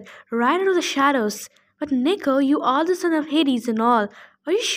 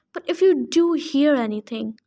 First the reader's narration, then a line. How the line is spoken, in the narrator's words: she pleaded